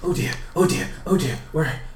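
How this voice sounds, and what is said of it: Weird put-on British accent, flustered. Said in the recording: “like a spinning little man, just rushing with like a weird British accent.”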